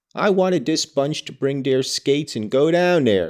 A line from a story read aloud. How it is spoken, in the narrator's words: sighed Hegland